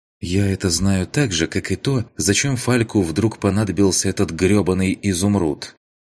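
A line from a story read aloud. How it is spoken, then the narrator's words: Sighing. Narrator (Russian): вздохнул он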